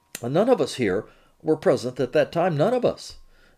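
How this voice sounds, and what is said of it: French accent with Queens touch. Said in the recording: “He says in a French accent with a bit of Queens thrown in”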